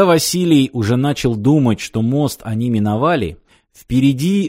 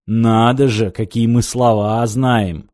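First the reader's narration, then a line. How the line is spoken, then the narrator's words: Mocking tone. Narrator (Russian): насмешливо сморщил нос сталкер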